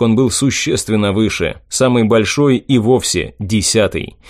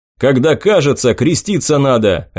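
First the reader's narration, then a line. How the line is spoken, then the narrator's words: Barked. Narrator (Russian): рявкнул я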